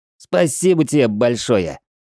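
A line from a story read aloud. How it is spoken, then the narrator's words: Angry shout. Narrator (Russian): зло выкрикнул Хила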